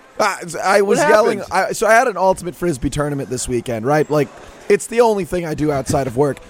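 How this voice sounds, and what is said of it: Hoarse, strained voice. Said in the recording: “I lost my voice. ... I blew out the vocal cords. They're toast”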